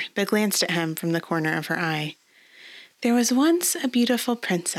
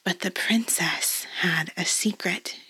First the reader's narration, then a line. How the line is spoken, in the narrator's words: she whispered